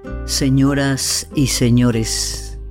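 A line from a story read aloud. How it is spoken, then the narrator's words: Low, slow, tired voice. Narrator (Spanish): dijo el capitán con una voz baja, lenta, un poco cansada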